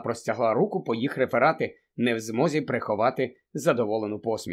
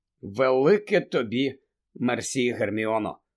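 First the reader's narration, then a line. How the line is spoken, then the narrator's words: Tired. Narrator (Ukrainian): втомлено сказав Гаррі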